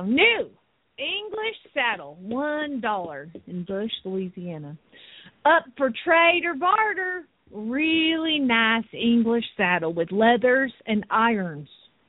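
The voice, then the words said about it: Put-on Southern US accent. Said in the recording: “I have to do it in a southern accent. ... But I don't do Louisiana accents. I'm just South Georgia”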